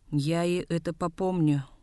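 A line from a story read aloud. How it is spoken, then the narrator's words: Glum promise. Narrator (Russian): уныло пообещал Гамбо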